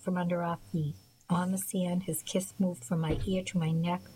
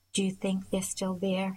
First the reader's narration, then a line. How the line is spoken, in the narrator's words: he asked